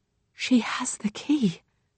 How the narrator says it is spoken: Rose whispers

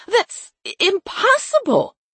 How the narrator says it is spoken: Teresa cried

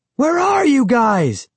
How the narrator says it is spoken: I shouted

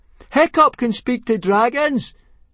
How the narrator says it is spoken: shouted Fishlegs very loudly indeed

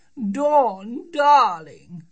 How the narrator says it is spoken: cried Dawn's mother

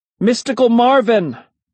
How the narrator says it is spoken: I shouted his name, just to make a sound, just to hear my voice

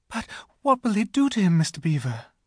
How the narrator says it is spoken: gasped Lucy

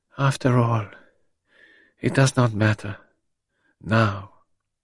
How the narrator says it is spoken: with a gesture of infinite weariness, she murmured as though to herself

